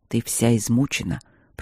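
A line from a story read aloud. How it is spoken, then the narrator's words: Calm. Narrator (Russian): проговорил он спокойно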